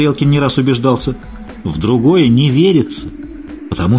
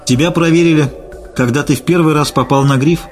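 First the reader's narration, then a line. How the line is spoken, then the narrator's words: Sighing. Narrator (Russian): вздохнула Надя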